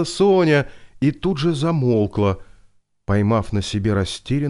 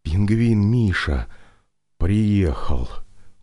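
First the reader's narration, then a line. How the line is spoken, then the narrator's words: Breathed out. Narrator (Russian): выдохнул Виктор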